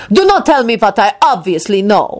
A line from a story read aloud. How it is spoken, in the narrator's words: Radu snapped at him